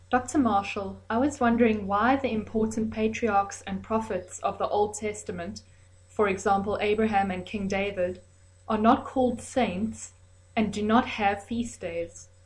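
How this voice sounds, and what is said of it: South African accent. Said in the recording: “she's calling from South Africa. She has a wonderful accent, so enjoy her accent”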